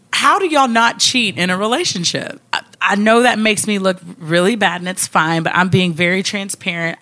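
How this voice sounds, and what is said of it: Kentucky Southern US accent. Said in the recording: “because she is from Kentucky, and you'll notice that with her accent.”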